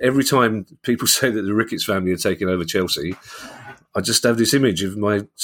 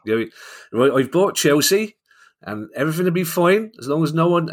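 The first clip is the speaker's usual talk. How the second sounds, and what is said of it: Bad put-on regional English accent. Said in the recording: “I know it's a terrible accent ... apologies to everybody from Gloucester or Norwich or wherever that accent was meant to be. Classic Londoner attempting to speak the way that other people apparently do speak, wrongly.”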